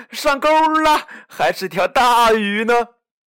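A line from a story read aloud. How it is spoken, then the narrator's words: Sudden excited shout. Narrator (Chinese): 小胖墩儿突然喊道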